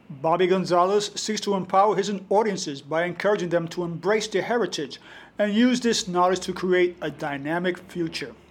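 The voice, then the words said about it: Polished radio announcer voice. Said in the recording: “your non-New York accent ... It sounds like my radio voice.”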